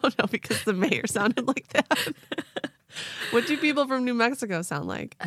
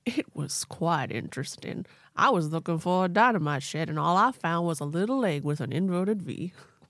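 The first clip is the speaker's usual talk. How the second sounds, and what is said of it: Yosemite Sam-style cartoon voice. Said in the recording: “Why does ... sound like that? ... They sound like Yosemite Sam. ... that's the accent ... state accent ... of New Mexico.”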